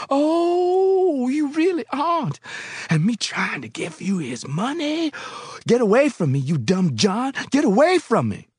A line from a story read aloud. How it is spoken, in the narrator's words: suddenly she screamed